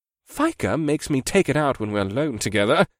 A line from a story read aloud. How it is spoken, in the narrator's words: Bakoth snorted